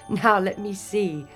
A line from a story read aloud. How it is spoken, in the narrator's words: laughed the fairy godmother